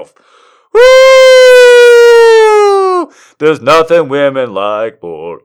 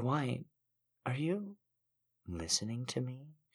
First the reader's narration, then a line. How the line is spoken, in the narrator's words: She purred